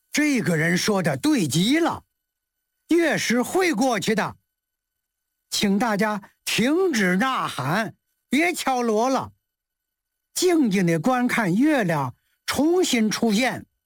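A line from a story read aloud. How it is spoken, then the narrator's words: Happy loud shout. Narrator (Chinese): 祖冲之很高兴，高声喊道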